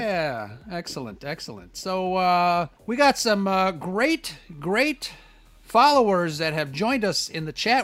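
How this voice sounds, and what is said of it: Loud, projected reporter-style voice. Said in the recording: “not screaming, am I? ... I just came back from a TV live shot, so I'm in that reporter. ... Why am I talking so loudly?”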